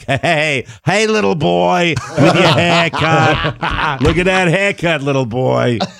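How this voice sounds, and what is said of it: Put-on Boston accent. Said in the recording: “I got the most pure Boston accent from my buddy Gino”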